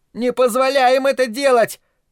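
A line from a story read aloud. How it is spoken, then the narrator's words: Wailing upward. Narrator (Russian): завопил Питер, подняв лицо к потолку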